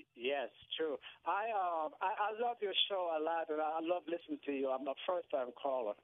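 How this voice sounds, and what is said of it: Slight Jamaican accent. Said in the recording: “Do I detect a little bit of an accent? ... Jamaica”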